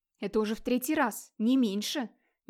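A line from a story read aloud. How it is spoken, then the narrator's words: Quiet but indignant. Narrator (Russian): негромко, но возмущенно ответил Хродмар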